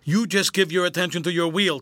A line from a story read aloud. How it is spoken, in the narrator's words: said Sam